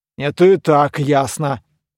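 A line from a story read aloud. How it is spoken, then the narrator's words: Ghost snorting. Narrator (Russian): призрак фыркнул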